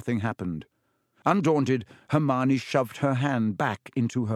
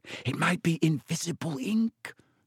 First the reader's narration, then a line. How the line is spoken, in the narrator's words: she whispered